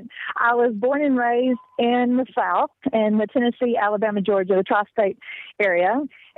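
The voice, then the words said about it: Mixed, confused-sounding accent. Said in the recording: “You have an accent that's all confused. ... Yes, it is a very confused accent.”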